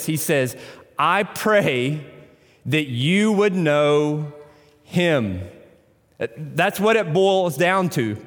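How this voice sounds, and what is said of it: Tennessee accent. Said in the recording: “I pronounce that in my Tennessee accent.”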